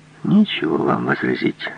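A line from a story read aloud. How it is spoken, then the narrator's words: Quiet and bitter. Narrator (Russian): сказал тихо и горько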